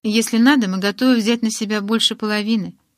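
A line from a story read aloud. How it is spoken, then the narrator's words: Less indifferent tone. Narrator (Russian): перевел Эдвард, в этот раз менее равнодушным тоном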